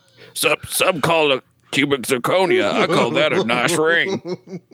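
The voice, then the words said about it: Imitates a movie character's voice. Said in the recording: “my Sling Blade voice ... My Sling Blade voice is terrible. It's not even spot on. It's just humorous to hear”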